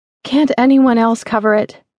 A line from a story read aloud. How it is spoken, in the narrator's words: Molly had pleaded